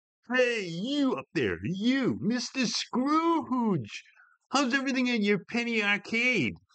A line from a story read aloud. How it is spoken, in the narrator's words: a well-oiled celebrator yelled in slurred words while looking up at Geizik